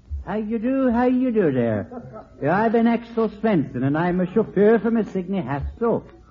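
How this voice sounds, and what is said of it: Comic put-on Swedish accent. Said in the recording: “Oh, what an interesting accent. ... I've always wanted to visit Sweden.”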